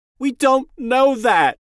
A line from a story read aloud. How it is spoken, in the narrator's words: Jamie cried